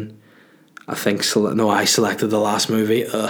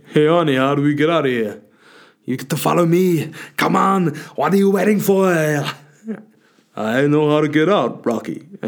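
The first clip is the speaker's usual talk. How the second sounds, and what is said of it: Impression of Stallone and Schwarzenegger. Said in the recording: “do an impression of these guys... Sylvester Stallone and Arnold Schwarzenegger”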